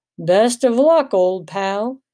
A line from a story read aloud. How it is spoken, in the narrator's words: James intoned the words